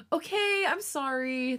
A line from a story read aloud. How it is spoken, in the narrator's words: the younger whined